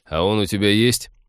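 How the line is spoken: Mocking interruption. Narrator (Russian): насмешливо перебил ее Тед

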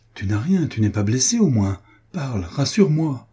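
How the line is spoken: Exclaimed. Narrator (French): s'écria-t-il

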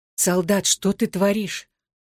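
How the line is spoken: Trembling voice. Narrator (Russian): дрожащим голосом произнесла

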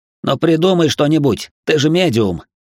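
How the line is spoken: Sharp shout. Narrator (Russian): прикрикнул на меня Макс

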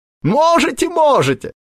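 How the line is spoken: Laughing. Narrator (Russian): продолжал смеяться Клюев

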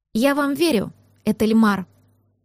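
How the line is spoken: Calm. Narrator (Russian): также спокойно произнесла София

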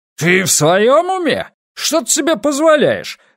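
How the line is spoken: Furious bark. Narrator (Russian): в бешенстве рявкнул старший инспектор

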